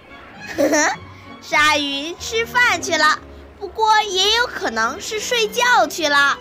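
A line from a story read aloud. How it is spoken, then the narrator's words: Smiling. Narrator (Chinese): 迪克笑了笑说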